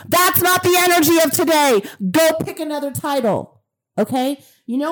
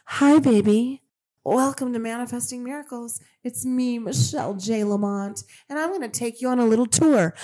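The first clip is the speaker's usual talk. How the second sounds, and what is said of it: Sweet, soft put-on voice. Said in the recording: “Do you want me to do it in my sweet Michelle voice?”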